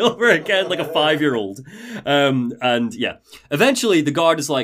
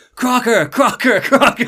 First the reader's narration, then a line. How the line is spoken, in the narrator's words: Burke just starts yelling